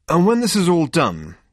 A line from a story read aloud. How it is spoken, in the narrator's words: said Zaphod savagely